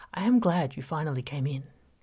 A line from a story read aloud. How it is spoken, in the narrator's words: his voice was friendly